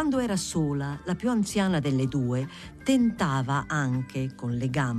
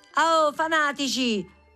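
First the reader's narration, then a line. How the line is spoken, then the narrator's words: Women shouting together. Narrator (Italian): gridarono quelle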